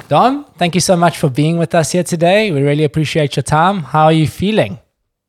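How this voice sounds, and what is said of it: South African accent. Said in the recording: “it's always fun to hear some South African accent”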